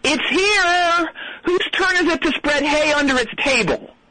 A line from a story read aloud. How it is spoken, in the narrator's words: one of the staff yell